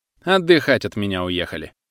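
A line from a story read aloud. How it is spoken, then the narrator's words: Snorting. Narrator (Russian): хмыкнул друг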